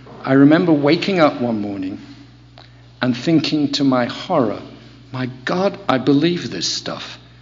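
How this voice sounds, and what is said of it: Non-American accent. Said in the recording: “You can tell from my accent I'm not Californian, I'm not even American.”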